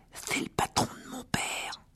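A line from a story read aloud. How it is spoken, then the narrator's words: Whisper. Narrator (French): chuchota Ron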